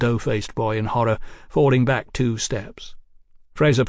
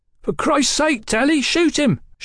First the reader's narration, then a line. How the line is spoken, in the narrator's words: shouted the muffled ruffian